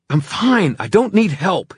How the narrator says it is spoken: panted, wrenching at her grip

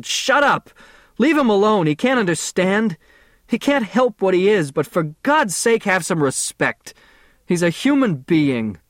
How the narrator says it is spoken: shouted

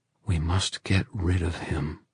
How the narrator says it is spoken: he said in a low voice to Kieran and Christina

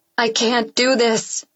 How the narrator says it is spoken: I yell over the sound of rain pounding the pavement

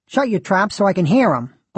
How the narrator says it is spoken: barked Mrs

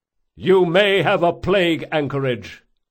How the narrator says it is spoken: shouted the Komori officer

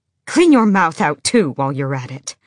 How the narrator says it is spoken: Emrys snapped

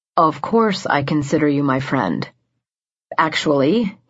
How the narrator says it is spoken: he began, his voice low

